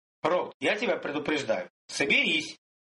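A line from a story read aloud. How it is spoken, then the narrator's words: Old man barking. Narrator (Russian): рявкнул старый маг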